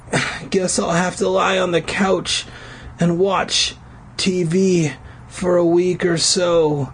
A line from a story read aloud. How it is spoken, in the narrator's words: he moaned, excited about the prospect that Lisa Turtle would finally say yes to a date with Screech